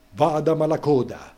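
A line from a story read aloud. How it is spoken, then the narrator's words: Crowd shouting. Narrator (Italian): Tutti gridaron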